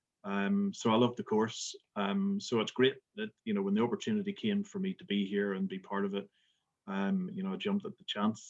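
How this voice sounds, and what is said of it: Northern Irish Belfast accent. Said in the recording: “as you can tell from my accent, I'm not from Scotland, but I'm originally from Belfast”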